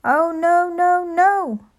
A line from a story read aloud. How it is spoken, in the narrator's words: she cried